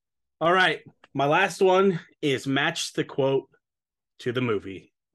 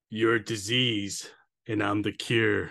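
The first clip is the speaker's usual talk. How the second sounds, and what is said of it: Impersonates a movie character's voice. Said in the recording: “I'm going to try to do my best impersonation. ... Oh, Cobra.”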